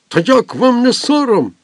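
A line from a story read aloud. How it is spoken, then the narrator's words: Commander's exclamation. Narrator (Ukrainian): вигукнув комендант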